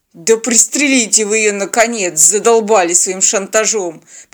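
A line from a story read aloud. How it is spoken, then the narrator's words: Grumbling. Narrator (Russian): проворчал Теодор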